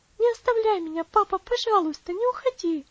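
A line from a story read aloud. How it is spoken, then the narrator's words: Exclaiming. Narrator (Russian): воскликнула Элси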